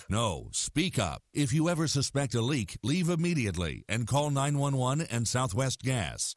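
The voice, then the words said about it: Deep-voiced narrator voice. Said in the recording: “Deep Voice Narrator”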